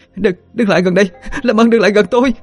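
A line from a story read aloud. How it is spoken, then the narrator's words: Screaming, loudly crying. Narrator (Vietnamese): Đào vừa hét vừa khóc lóc ầm ĩ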